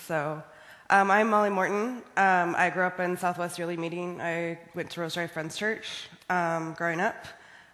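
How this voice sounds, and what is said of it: Sick, strained voice. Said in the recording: “I am sick right now, so I apologize for my voice”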